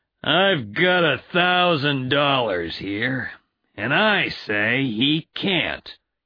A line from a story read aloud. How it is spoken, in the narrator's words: said Matthewson, speaking slowly and loudly